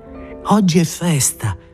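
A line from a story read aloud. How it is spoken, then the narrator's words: Laughing. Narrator (Italian): ella disse ridendo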